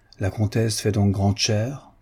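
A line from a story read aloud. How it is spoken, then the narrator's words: Plain. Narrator (French): dit le chevalier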